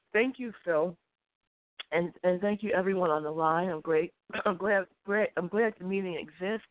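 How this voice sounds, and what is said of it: Congested, stuffy-sounding voice. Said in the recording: “I'm sorry, I have a cold.”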